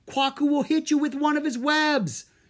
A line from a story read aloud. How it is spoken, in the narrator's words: Drake yelled